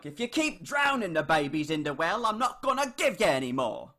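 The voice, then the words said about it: Put-on British accent. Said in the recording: “sometimes I talk in a British accent ... I'm saying something, like, fucked up in my British accent”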